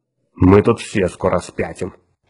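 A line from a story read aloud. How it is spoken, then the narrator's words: Grumbling mutter. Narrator (Russian): пробурчал Отто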